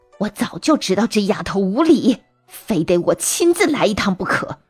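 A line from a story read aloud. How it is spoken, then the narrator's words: Angry shout, old mother. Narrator (Chinese): 老娘满脸的怒气，喊道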